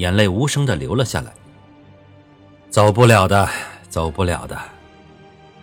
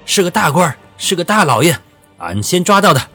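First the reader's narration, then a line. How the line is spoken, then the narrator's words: Triumphant laughing. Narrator (Chinese): 一名冲在最前面的贼寇…得意地大笑不止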